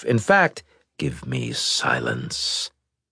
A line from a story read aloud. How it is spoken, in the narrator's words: the builder said in an ominous tone